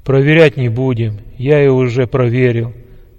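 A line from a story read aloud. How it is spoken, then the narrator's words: Plain. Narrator (Russian): сказал генерал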